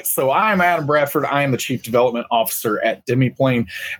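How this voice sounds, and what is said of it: Country accent. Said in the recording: “your wonderful dulcet tones ... country accent that I got”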